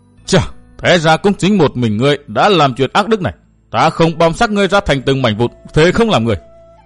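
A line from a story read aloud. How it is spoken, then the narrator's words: Hateful roar. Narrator (Vietnamese): Sắc mặt phu nhân đại biến, căm thù mắt nhìn Văn Thiên Hào, một hồi lâu bỗng gầm giống nói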